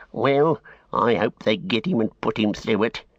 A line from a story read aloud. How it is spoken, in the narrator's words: growled the tracker